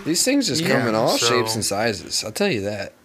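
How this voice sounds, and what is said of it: Folksy middle-aged dad voice. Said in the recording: “He sounds like a fucking dad at Home Depot.”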